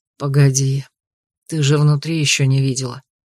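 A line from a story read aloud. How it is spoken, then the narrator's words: Hoarse regretful whisper. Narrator (Russian): хрипло прошептал маршал, не без сожаления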